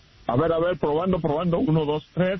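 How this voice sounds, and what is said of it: Deep radio announcer voice. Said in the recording (Spanish): “eso es lo que yo llamo un macho ... Esa es mi voz de locutor ... me encanta tu voz de locutor”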